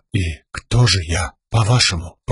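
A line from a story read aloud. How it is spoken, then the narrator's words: Timid whisper. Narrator (Russian): прошептала Шалан, глядя принцессе в глаза и, наконец-то, задавая вопрос, на который ей раньше не хватало смелости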